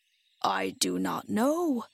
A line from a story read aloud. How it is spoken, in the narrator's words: answered Bok gravely